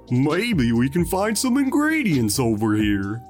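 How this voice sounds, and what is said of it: Goofy cartoon character voice. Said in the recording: “that was a really good Goofy impression”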